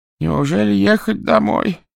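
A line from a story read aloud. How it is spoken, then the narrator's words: Pleading. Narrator (Russian): взмолился доктор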